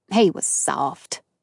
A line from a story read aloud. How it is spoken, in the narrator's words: Atkins said in a disgusted tone